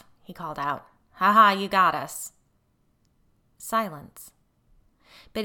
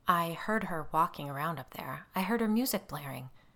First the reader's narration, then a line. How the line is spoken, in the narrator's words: Andrew said in a low voice